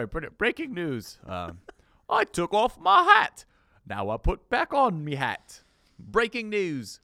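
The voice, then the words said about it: Mock British accent. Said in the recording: “That was the same impression when you impersonated British comedy last week ... I don't understand this impression”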